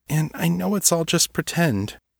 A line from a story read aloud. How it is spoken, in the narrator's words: he finished sadly